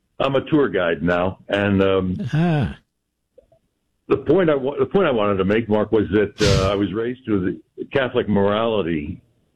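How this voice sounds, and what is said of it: Polished radio announcer voice. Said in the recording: “that's a radio voice, America. you have a radio voice.”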